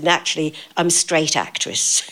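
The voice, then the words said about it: Strong Cockney accent. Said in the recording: “in a very Cockney accent, which I had then”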